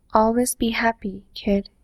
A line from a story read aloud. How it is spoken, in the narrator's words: he says again